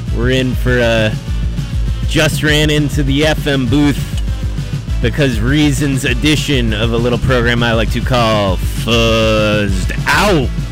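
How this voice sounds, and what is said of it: Slightly out of breath. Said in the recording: “I'm a little out of breath here”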